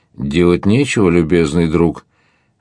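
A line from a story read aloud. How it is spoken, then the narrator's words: Exclaiming through laughter. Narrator (Russian): вскричал сквозь смех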